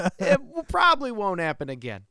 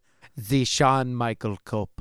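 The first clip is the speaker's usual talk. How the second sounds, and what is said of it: Attempted Austrian accent. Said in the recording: “my take at an Austrian accent”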